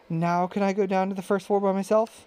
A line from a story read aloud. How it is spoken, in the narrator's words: he asked eagerly